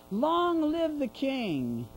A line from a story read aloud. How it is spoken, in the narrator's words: They were yelling